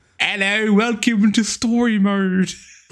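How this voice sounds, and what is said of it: Bad put-on British accent. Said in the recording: “if you want to make this a UK podcast, I have an accent ... Better now that you're not doing the accent ... let's not even call it an accent, it is just an affront to God ... It's an insult to human perception.”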